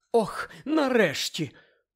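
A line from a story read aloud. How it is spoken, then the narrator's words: Relieved sigh. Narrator (Ukrainian): полегшено зітхнула місіс Уізлі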